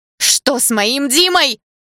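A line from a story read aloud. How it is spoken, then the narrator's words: Loud uncontrolled scream. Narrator (Russian): закричала я громче, не контролируя себя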